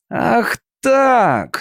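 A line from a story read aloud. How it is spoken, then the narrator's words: Growling. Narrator (Russian): зарычал хозяин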